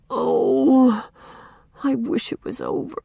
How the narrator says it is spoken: groaned Walter

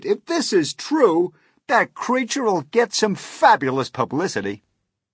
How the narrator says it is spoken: At which no less than 52 policemen cried

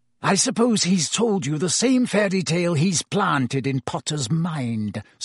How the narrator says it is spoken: spat Snape

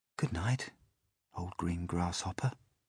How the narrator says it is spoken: he whispered

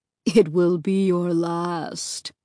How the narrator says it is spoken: the other horror added with a low chuckle

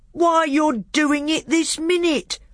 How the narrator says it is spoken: bellowed Trumpkin

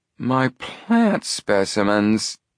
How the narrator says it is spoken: he groaned

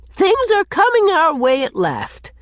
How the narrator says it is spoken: she told Cousin Sophia triumphantly

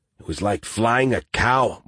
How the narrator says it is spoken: Martinez grumbled

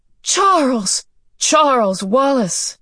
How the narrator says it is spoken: he cried out

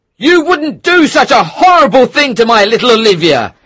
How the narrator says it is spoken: he shouted

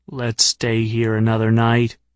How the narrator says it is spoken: he said

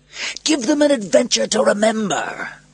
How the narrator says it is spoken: Proximo shouted above the noise

